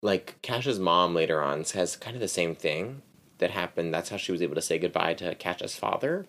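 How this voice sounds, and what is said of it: Usual voice. Nothing is said of it.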